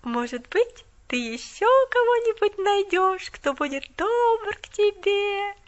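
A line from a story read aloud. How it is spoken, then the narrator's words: Sing-song drawl. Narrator (Russian): Нараспев протянула она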